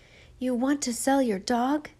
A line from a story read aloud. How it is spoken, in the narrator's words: asked eagerly